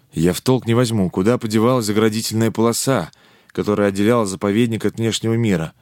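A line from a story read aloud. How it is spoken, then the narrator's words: Confused mutter. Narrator (Russian): пробормотал он растерянно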